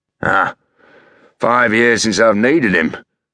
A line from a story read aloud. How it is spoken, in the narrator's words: Fred grunted